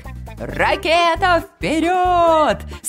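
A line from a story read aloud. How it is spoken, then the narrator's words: Commanding. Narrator (Russian): скомандовал барашек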